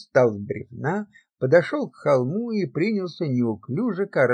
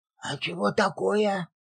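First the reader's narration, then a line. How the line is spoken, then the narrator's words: Whisper, young novice. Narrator (Russian): прошептал ему в спину молодой послушник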